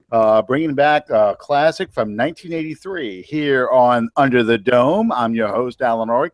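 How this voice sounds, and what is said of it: Radio DJ announcer voice. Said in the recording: “Sound like my radio DJ voice here.”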